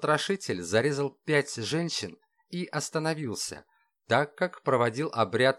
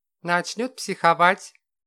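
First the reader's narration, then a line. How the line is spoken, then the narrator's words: Smirking grunt. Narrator (Russian): хмыкнул Ван Ли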